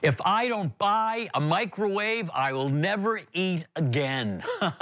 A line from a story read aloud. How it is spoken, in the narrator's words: A voice that came from the other side of the aisle that yelled out